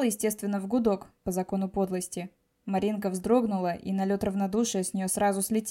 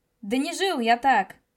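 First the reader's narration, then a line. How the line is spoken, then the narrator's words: Yelled. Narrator (Russian): Заорал я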